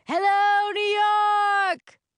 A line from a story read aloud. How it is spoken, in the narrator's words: Robert Crown's voice yells